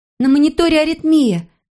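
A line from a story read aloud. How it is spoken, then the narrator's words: Nurse exclaiming. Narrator (Russian): воскликнула медсестра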